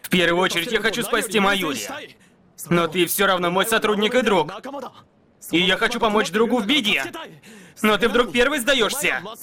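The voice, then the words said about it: Shouting angrily. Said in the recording (Russian): “Не кричи на меня.”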